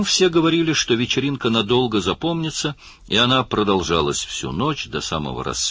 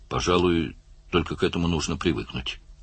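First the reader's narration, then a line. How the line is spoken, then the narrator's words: Mumble. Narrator (Russian): пробормотал Барни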